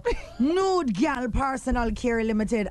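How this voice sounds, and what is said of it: Put-on Jamaican accent. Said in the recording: “I have to say it with my Jamaican accent... Sound like a yardie?... A little bit. You had it ... but then you just went up by the personal.”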